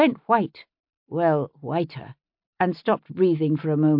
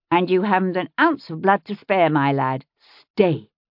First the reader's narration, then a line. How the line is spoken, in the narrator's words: I said sternly, as though to a dog